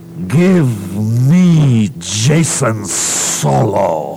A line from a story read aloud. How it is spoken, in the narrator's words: roared